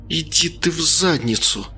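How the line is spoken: Through gritted teeth. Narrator (Russian): процедила Лена сквозь зубы

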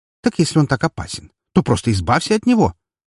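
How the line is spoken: Unrestrained female exclamation. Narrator (Russian): Уже не сдерживаясь, воскликнула она

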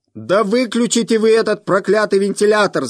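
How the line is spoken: Shout. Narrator (Russian): закричал

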